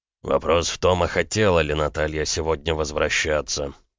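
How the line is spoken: Through gritted teeth. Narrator (Russian): процедил Макеев

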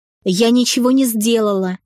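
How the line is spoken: Hysterical tearful shriek. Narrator (Russian): завизжала Камила, срываясь на слезы и закатив мне настоящую буйную истерику, со шмыгающим носом

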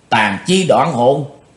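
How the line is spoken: Old man, involuntary cry. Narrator (Vietnamese): Bất giác bắt độc lão ma kêu lên

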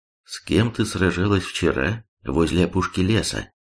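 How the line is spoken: Calm statement. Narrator (Russian): спокойно заявила

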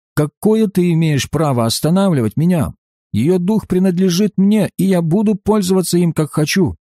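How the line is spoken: Surprised furious shout. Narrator (Russian): Удивленный, в бешенстве закричал

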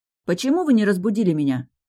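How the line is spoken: Accusing question. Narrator (Russian): обвиняющим тоном спросила я

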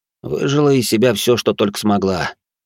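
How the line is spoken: Tired. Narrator (Russian): устало произнес я

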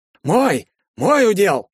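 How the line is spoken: Shouted. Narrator (Russian): закричал Герцен

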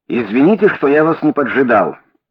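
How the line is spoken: Plain. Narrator (Russian): сказал он

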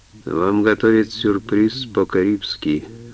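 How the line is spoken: Gloomy reply. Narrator (Russian): мрачно ответил Гилпатрик

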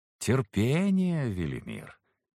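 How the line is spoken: Drawled. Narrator (Russian): протянул Саргон

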